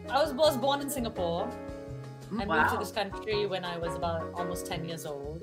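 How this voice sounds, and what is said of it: Slight foreign English accent. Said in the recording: “you have a little bit of an accent there”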